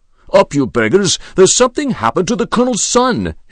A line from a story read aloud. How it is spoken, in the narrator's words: he shouted